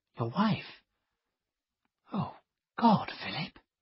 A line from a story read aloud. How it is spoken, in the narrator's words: she whispered